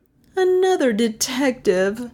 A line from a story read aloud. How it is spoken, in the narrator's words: Melissa groaned